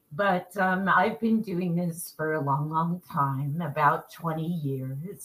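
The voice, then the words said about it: Strong New York accent. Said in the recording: “I'm in New York ... my accent, um, it's pretty strong, uh, particularly when I'm uh, fired up”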